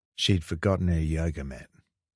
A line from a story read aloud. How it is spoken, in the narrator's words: Ash said to Kieran quietly